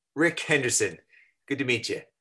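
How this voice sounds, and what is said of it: American accent. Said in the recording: “I love a sexy American accent”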